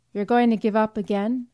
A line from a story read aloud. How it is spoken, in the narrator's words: she demanded coldly